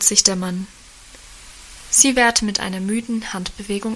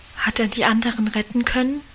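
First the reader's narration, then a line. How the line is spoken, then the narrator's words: Whispered. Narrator (German): flüsterte sie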